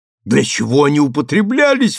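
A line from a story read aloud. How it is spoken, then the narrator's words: Astonished exclamation. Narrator (Russian): воскликнул, пораженный его словами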